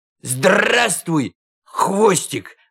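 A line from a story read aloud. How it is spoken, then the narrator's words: Shout. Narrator (Russian): крикнул он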